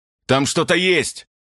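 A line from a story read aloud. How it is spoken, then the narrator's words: Yell. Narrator (Russian): завопил он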